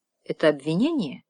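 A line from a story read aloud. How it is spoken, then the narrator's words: Very calm question. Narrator (Russian): очень спокойно спросил Каллан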